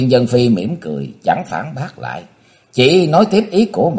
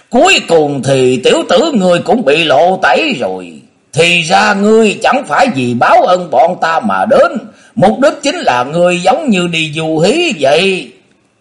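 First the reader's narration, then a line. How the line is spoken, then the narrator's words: Old man's laughing interruption. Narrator (Vietnamese): Thượng Thiên Nhược Thủy lão nhân cười lớn ngắt lời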